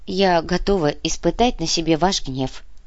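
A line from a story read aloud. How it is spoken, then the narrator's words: Meek sigh, old woman. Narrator (Russian): покорно вздохнула старуха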